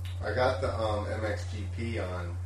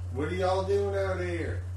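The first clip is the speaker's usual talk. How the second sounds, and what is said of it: Put-on Southern accent. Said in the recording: “He had a southern accent.”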